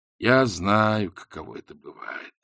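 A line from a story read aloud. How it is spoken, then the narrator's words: Sighing. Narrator (Russian): вздохнув, поведал Ринсвинд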